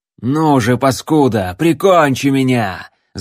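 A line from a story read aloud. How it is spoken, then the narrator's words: Desperate yell. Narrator (Russian): завопил он, чувствуя холодную сталь у шеи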